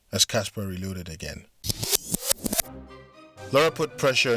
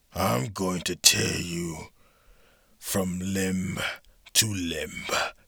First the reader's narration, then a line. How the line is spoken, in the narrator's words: she growled